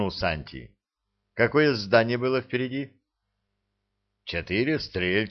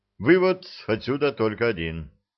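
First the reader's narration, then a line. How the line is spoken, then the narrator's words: Grim. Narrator (Russian): мрачно сказал Ланник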